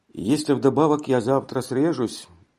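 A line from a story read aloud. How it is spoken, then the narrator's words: Gloomy added remark. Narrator (Russian): прибавил он мрачно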